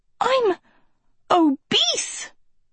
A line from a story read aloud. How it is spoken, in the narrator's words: Sophie gasped